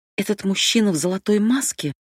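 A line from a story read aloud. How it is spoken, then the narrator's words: Trembling voice. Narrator (Russian): дрожащим голосом спросила Абигейл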